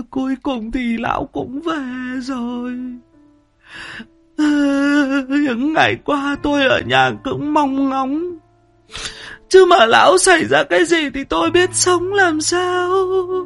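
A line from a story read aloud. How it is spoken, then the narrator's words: Woman, tearful, quavering. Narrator (Vietnamese): bà lau đi những giọt nước mắt lạ chã, liền mếu máo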